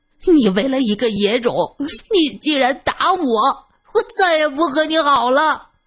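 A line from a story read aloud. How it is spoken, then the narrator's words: Child wailing and shouting. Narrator (Chinese): 小恒却大哭起来，边哭边喊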